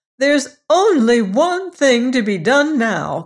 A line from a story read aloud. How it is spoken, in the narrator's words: cried she